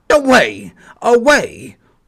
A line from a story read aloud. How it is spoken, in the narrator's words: barked the yard dog